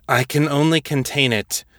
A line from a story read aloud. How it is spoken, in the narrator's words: she said, her voice thick with effort